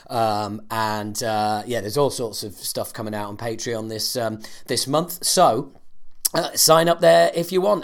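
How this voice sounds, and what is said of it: Strained, worn-out voice. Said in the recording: “As you will be able to tell, my voice is a little bit... Yeah, I have been in the studio for 9 days ... because my voice went.”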